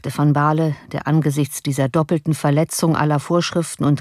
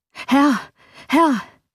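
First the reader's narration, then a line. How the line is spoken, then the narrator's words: Servant calling, frightened. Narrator (German): rief ein Diener mit einem noch bleicheren Gesicht und mit noch erschrockenerer Miene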